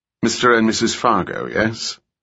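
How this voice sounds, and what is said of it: British accent. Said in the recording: “His accent was British.”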